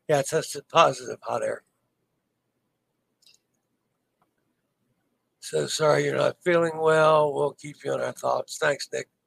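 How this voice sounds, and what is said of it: Hoarse, worn-out voice. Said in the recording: “my throat, obviously, you know, my voice is shot.”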